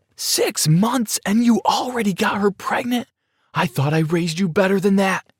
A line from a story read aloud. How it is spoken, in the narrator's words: screamed